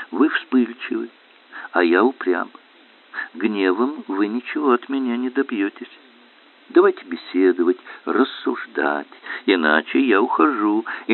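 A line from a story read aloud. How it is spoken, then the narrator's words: Calm, smiling, unafraid. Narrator (Russian): Не испугавшись этого взрыва корсиканского темперамента, Александр с улыбкой спокойно произносит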